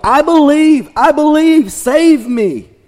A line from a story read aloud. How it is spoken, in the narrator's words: he yelled